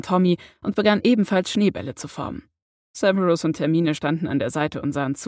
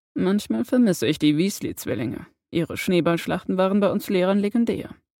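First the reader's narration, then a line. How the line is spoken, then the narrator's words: Quiet telling. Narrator (German): erzählte Severus leise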